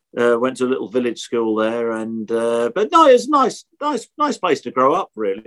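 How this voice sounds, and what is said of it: Norfolk English accent. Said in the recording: “You could probably tell from my accent, Norfolk accent.”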